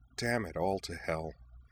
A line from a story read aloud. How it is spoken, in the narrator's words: she muttered through her teeth